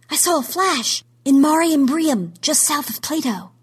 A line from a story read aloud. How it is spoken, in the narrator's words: someone gasped, then said